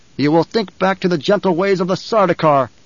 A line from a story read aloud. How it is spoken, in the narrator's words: Paul snapped